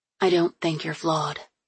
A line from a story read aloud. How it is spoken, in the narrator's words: she said quietly